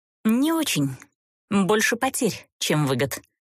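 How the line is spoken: Skeptical snort. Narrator (Russian): скептически фыркнула она

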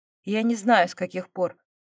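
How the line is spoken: Calm. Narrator (Russian): ответил он спокойно

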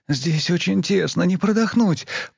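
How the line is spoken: Moaning. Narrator (Russian): простонала

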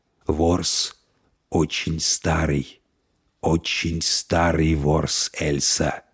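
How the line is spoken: Growled in secret language. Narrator (Russian): прорычал он на тайном языке

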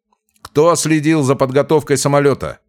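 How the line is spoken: Shouted. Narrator (Russian): прокричал Смирнов

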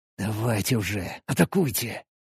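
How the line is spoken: Whispered. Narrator (Russian): прошептал

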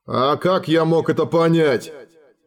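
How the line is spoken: Irritated growl, old dragon. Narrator (Russian): еще сильнее раздражаясь прорычал старый дракон

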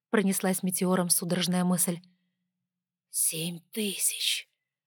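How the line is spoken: Awed whisper. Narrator (Russian): прошептала восхищенная богиня

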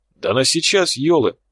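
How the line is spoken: Exclaimed. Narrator (Russian): воскликнул Тхар

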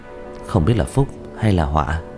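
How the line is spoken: Muttering. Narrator (Vietnamese): Diệp Thiếu Dương lẩm bẩm

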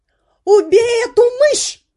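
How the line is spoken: Cook yelling. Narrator (Russian): орала повариха

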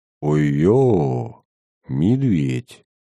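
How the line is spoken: Barely audible exclamation. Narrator (Russian): Чуть слышно, почти про себя воскликнул Платон

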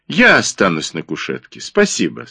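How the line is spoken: Dry. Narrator (Russian): сказала она сухо

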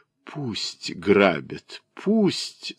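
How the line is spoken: Moaning. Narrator (Russian): застонала она

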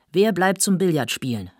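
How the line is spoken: Calling out. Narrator (German): rief Obner

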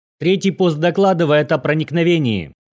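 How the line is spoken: Sudden shout. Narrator (Russian): внезапно закричал Вордман

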